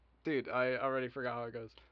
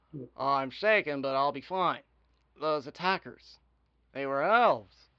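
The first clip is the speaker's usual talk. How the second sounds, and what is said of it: Character voice. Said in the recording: “It's like Obama, almost. Mixed with Fink.”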